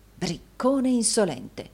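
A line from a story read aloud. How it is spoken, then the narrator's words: Murmuring. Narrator (Italian): mormorò Rodolfo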